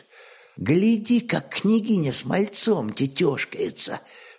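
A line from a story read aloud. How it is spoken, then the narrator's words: Whisper. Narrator (Russian): шепнула подруга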